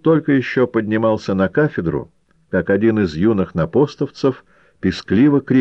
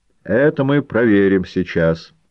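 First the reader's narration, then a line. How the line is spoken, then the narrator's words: Calm. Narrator (Russian): спокойно сказал поэт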